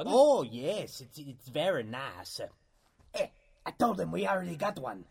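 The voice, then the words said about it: Outrageous exaggerated French accent. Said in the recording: “I'm French. Why do you think I have this outrageous accent”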